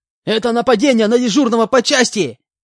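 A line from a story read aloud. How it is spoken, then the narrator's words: Shout. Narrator (Russian): Закричал он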